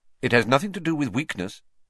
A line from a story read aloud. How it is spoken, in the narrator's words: said Professor Lupin sharply